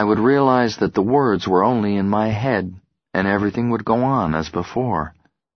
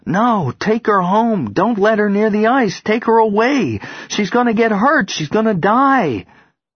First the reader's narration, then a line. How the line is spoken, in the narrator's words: scream